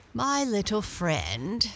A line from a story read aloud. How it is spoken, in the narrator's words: said he